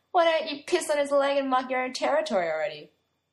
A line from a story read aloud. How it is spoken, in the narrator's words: Joe had burst out laughing and said